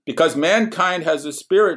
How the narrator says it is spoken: shouted one of the partygoers, celebrating the end of everything

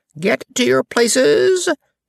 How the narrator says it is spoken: shouted the queen in a voice of thunder

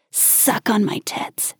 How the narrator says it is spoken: Karen hissed

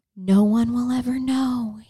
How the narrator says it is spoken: whispered

